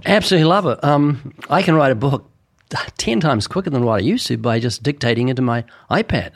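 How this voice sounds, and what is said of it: Strong, hard-to-understand accent. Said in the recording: “how good it is at picking up even my accent. I can understand what even you can't understand”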